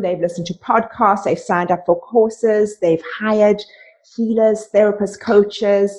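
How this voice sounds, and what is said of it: South African accent. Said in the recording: “why do you have such an amazing accent? ... Tell us why you have that accent. Because I'm from South Africa.”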